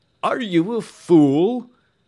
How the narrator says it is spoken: cried Mr

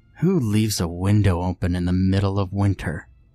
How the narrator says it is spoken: I grumbled

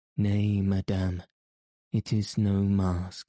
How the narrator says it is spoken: he said icily

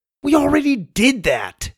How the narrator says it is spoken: Sawyer whined

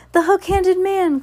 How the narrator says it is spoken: Klaus cried

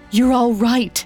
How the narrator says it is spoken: Martin gasped in relief

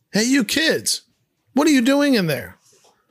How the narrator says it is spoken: Greg shouts

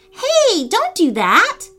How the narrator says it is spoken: Lily cried

